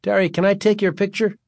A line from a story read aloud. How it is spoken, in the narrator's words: Greg asked meekly